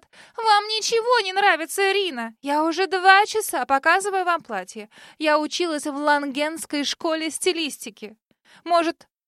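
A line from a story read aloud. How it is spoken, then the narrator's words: Exasperated falsetto yell. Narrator (Russian): доведенная до белого коленя стилистка, вдруг завопила, переходя на фальцет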